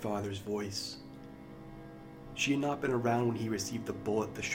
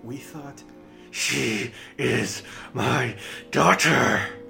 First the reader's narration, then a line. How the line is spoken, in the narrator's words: the man McRae screeched